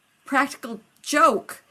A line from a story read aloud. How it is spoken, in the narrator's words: John yelped